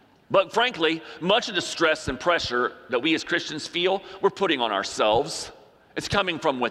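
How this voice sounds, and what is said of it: Usual voice. Nothing is said of it.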